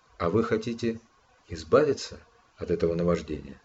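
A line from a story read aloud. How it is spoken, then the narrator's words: Gentle question, psychologist. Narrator (Russian): Психолог мягко спросил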